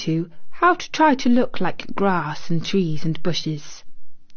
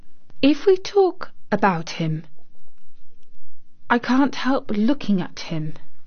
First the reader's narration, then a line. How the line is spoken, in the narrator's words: Mary said, as softly as possible